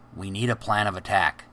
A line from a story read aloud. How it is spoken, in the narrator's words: whispered